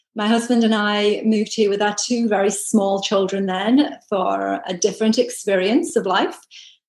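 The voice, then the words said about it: British accent. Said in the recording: “I'm originally from the UK, as you can tell from my accent”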